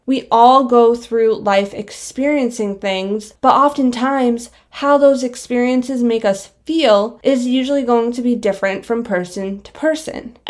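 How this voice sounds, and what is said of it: Out of breath, breathy speech. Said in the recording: “I don't know why I'm so out of breath. ... I'm out of breath. Kind of feels like I just ran a marathon. ... if I sound like out of breath”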